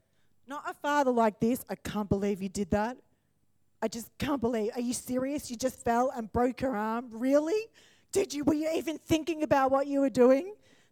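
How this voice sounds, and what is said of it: Impersonation of a scolding father. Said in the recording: “That is not the Father. Sometimes that's Andrew. ... That's why I could do such a good impersonation.”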